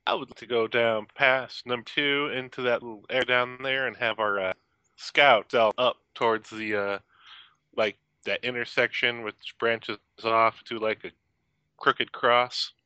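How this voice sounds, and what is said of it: Put-on Southern US accent. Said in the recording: “Are you meaning to slip back into the southern accent or no? ... You've been going at it all night.”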